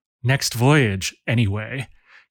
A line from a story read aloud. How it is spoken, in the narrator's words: he muttered to himself as he worked feverishly